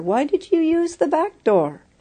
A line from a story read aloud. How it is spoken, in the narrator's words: exclaimed the surprised teacher